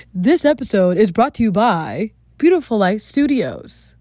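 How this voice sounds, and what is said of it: Polished marketing announcer voice. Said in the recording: “put on my marketing voice”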